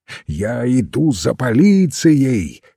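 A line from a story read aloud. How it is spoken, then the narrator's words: Hoarse shout. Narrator (Russian): хрипло выкрикнул он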